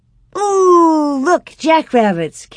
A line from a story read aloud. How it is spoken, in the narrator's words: Carrie exclaimed